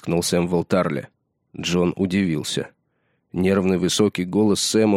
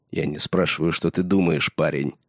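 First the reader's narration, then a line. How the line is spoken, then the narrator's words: Cold. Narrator (Russian): холодно сказал Рикер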